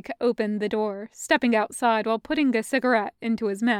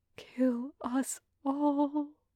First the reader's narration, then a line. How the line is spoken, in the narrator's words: Anya reiterated under her breath